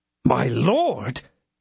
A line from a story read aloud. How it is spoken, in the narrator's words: cried D'Artagnan, enlightened by a sudden idea